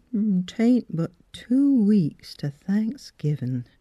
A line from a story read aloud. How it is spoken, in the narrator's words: she said slowly